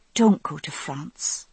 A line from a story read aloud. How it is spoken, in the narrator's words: I said softly